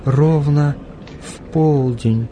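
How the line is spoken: Stunned whisper. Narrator (Russian): потрясенно прошептала Марта

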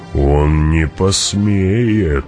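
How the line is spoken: Plain. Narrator (Russian): сказал он наконец

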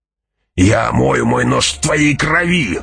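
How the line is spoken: Furious growl. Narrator (Russian): яростно прорычал Джамис

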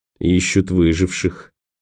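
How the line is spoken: Gloomy speech. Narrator (Russian): мрачно проговорил Николас

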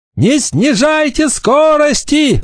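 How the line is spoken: Shouted command. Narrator (Russian): закричал он остальным

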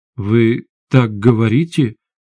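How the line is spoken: Uncertain. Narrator (Russian): неуверенно произнесла Светлана

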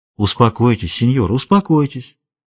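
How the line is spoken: Soothing repetition. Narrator (Russian): повторяла Паулита

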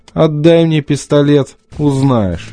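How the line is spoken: Muffled snort. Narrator (Russian): хмыкнул в бороду Стив

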